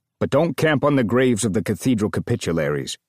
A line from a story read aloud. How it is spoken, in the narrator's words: Bummer growled